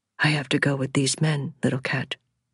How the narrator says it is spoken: he said calmly

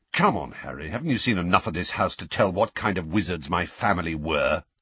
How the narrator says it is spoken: said Sirius testily

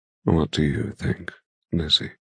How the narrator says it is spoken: He murmurs, his question loaded

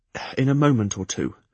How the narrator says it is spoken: I assured him breathlessly

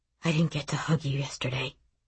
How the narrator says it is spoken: Gat whispers

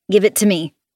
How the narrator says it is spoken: she snaps

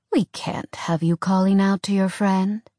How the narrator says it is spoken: he said calmly

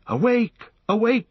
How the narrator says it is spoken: he cried

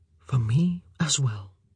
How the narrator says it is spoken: he said softly

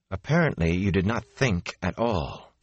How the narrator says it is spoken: she said, coolly composed once more

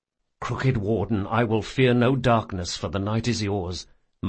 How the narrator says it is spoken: muttered Locke

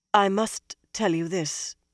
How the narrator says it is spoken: Nynaeve said in a stiff voice

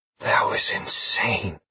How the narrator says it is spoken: I whispered

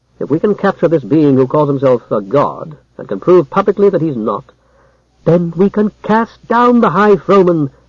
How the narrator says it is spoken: cried Jara

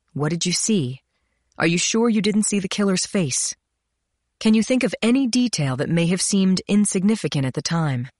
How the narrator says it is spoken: Allison Goslin sighed

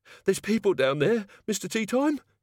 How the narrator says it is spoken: wheezed

